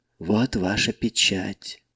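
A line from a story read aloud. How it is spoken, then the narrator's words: Near whisper. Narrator (Russian): почти прошептала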